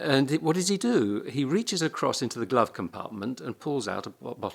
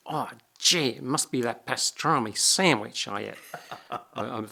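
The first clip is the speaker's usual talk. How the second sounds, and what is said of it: Imitated New York accent. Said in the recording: “my imitation of the New York accent”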